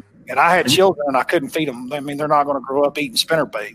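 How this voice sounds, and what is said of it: Thick Oklahoma accent. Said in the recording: “my Oklahoma accent's probably a little too thick”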